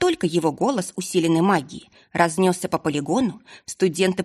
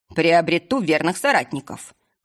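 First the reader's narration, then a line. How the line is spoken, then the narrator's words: Scoffing. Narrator (Russian): хмыкнул Николас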